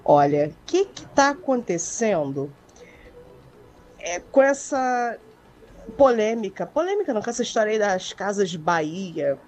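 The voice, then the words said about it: Radio announcer style voice. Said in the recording (Portuguese): “aquela voz de locutora ... com voz de locutora”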